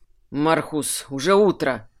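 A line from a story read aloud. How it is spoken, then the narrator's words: Exhaled words. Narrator (Russian): Выдохнул Кайфат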